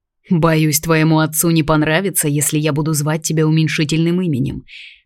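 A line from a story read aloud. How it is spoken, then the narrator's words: Wry snort. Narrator (Russian): хмыкнул Брандон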